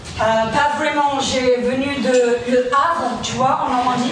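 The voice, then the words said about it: Heavy English accent in French. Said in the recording (French): “un gros accent anglais”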